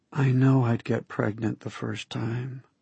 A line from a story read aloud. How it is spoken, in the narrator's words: she whispered in my ear